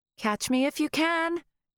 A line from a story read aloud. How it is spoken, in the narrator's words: shouted